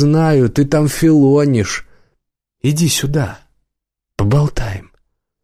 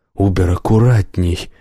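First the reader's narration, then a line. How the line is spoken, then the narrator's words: Strained, altered voice. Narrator (Russian): попросил Соловей не своим голосом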